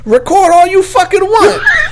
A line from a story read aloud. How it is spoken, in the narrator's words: She screamed